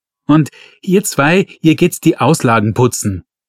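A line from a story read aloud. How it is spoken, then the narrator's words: Shouting. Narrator (German): schrie er die Verkäuferinnen an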